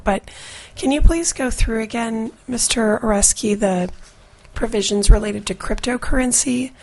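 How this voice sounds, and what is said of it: Slightly hoarse, crackly voice. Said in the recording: “My voice is a little crinkly, so if you need me to repeat, just let me know.”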